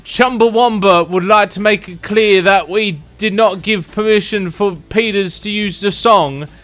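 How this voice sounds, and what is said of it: Put-on Northern English accent. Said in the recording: “What accent is that? What is that meant to be? ... Northerner.”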